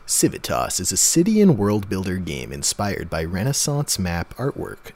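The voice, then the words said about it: Movie trailer announcer voice. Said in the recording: “I do a movie theater voice, trailer voice”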